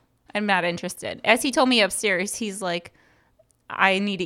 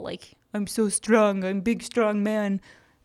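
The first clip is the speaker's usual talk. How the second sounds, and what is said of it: Mocking put-on Russian accent. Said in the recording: “How come when you mock me, I have a Russian accent?”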